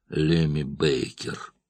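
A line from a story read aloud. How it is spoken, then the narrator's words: Muttering. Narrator (Russian): пробормотал он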